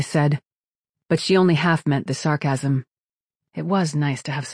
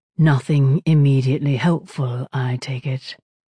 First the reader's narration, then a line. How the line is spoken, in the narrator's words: said Grigorovich